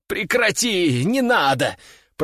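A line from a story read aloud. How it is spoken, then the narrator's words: Moaning. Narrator (Russian): простонал я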